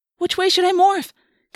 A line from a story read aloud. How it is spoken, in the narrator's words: Cassie wailed